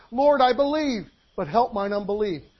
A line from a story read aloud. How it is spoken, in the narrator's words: the man cried